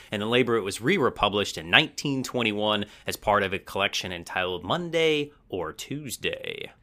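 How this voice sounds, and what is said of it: Put-on narrator radio voice. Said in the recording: “fun little narrator voice you put on there, like, ooh... That was my radio voice... That was good”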